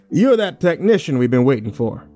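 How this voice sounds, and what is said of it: Strong country accent. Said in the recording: “he said with a strong country accent.”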